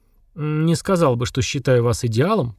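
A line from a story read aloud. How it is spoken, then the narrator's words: Mutter. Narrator (Russian): пробормотал майор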